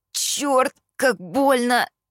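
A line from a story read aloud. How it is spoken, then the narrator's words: Pained moan. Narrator (Russian): простонал Кит, схватившись за разбитый нос, из которого уже вовсю сочилась кровь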